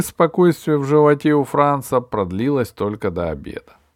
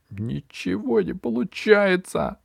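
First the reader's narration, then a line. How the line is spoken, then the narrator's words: Groaning. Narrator (Russian): простонал Франц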